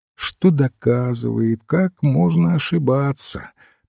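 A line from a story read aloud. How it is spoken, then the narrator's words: Sad. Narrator (Russian): печально сказал священник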